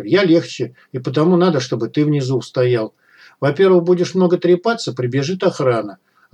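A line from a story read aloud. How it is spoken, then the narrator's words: Plain. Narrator (Russian): ответил Малахов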